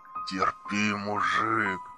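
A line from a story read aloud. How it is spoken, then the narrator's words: Breathless exhale. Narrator (Russian): выдохнул Джо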